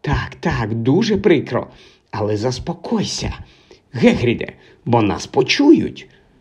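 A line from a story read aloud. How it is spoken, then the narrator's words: Whispering. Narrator (Ukrainian): шепотіла професорка МакГонагал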